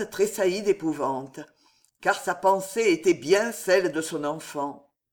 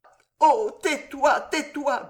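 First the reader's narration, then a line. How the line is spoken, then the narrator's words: Stammering in dread. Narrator (French): bégaya Jeanne, comme si le nom qui était sur les lèvres de sa fille et sur ses propres lèvres à elle eût été une malédiction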